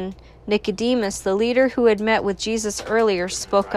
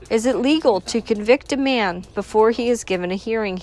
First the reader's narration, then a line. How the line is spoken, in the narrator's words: he asked